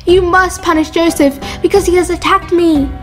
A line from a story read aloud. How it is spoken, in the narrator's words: Zuleika screamed before her husband and said